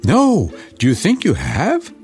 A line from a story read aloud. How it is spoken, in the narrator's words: cried little with joy